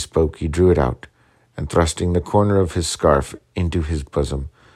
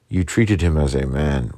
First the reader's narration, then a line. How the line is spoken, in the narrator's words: replied Kirkpatrick